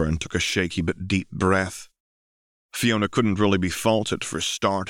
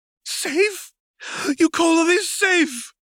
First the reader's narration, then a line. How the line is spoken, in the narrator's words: exclaimed